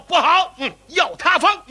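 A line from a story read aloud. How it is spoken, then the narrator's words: Urgent shout. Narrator (Chinese): 有人喊道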